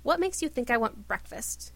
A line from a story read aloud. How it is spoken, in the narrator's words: He asked irritably